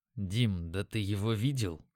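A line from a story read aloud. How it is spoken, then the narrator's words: Trying to speak quietly. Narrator (Russian): сказал я, стараясь говорить тихо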